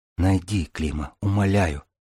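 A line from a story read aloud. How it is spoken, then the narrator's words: Trembling anxious whisper. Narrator (Russian): прошептала Купава, зябко вздрагивая от волнения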